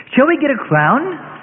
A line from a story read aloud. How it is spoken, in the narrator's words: a teenage girl excitedly asks